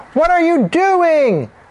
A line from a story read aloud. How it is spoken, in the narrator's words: The mothers shouted